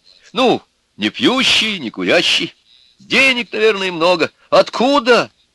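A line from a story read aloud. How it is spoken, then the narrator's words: Exclaiming. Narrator (Russian): воскликнула Нюра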